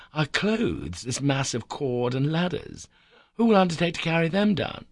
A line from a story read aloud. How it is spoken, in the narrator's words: exclaimed